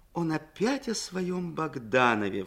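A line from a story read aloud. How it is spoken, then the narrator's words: Exclaimed in mock horror. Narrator (Russian): в шутливом ужасе воскликнула Крупская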